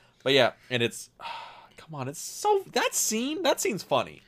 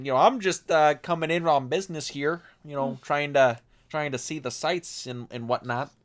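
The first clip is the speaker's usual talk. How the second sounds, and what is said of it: Put-on regional white American accent. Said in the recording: “puts on the old you know, the white guy accent ... Good old regional accents”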